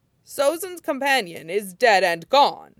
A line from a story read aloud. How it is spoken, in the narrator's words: Iroh said sharply